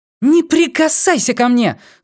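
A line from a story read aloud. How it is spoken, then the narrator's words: Scream. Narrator (Russian): заорала она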